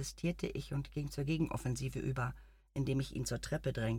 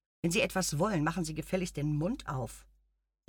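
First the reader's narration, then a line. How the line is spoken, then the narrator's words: Sharp. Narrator (German): sagte ich scharf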